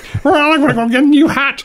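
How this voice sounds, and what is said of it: Poor imitation of another person's voice. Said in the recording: “Was that a Cilla Black impression? ... It was. ... That was awful.”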